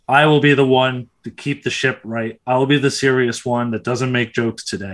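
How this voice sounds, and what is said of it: Deliberately deeper, serious voice. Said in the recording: “my voice went down half an octave ... Yeah, it did. Wow.”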